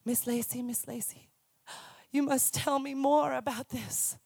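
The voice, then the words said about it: Imitated Indonesian accent. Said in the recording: “I love their accents. I'm not very good at accents, but that's kind of what it sounded like.”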